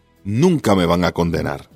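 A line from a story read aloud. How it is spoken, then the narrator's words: Chuckling. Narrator (Spanish): dijo mientras se reía entre dientes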